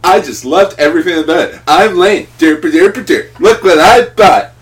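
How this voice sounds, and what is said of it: Poor mocking impression of a friend. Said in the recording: “That was a poor impression of him.”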